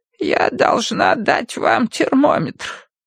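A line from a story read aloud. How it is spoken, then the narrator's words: Creaky voice. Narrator (Russian): проскрипела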